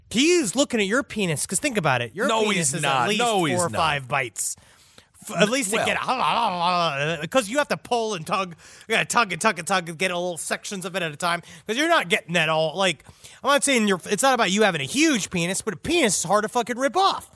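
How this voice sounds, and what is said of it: Demonic pug character voice. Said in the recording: “impersonated a demonic pug”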